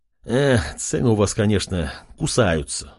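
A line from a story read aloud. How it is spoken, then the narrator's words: Sighing. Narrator (Russian): вздохнул Артем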